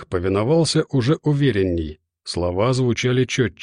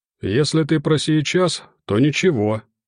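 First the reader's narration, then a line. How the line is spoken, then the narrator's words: Cheerful healer's reply. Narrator (Russian): бодро отозвался знахарь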